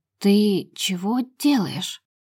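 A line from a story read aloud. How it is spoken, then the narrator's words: Choking, flustered speech. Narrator (Russian): Давлюсь словами, слюнями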